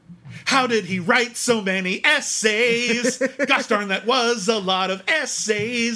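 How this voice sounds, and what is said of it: Sung impression of a musical number. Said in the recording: “my impression, and I'm nowhere near as good at music or lyrics as Lin-Manuel Miranda ... I'm going to do my impression of this song”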